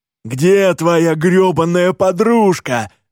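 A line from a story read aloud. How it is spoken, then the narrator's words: Yelling. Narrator (Russian): вопит Скотти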